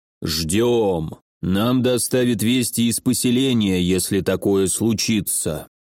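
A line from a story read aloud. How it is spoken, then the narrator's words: Deep bass voice. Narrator (Russian): пробасил Думиса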